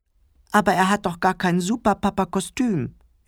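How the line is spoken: Whining. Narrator (German): jammerte Clemens

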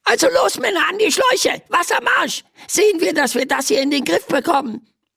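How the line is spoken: Squeaky voice from below. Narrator (German): piepst eine Stimme von unten

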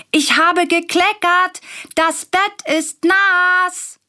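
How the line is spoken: Calls out. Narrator (German): ruft Willi

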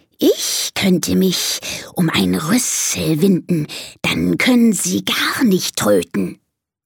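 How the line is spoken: Hissing snake. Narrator (German): zischt die Schlange

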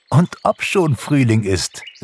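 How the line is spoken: Laughing. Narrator (German): lachte Pixie

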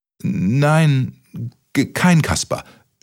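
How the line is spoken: Stuttering. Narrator (German): stotterte Kaspermütze

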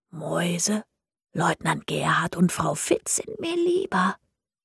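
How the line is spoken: Whispering. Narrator (German): flüstern

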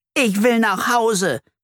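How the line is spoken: Screaming. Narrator (German): schreit Flori

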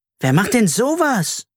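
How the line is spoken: Indignant shout. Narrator (German): rief Carla empört

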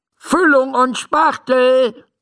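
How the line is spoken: Calling out. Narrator (German): ruft Dr

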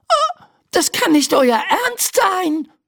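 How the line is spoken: Shouting. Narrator (German): schreit Laura

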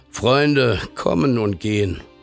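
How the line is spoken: Tired father speaking. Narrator (German): Der Vater blickte müde auf und sprach

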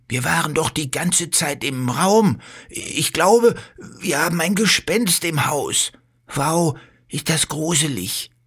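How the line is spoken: Fearful. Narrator (German): sagt Bello und schaut sich ängstlich um

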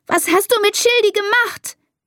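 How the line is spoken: Screaming. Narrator (German): schreit sie

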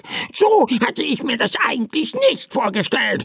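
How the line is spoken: Annoyed bird's croak. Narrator (German): krächzte der Vogel verärgert

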